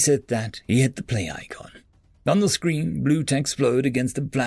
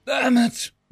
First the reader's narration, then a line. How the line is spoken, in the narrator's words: wheezed Novak